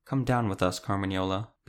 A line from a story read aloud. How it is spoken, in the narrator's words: Beatrix said quietly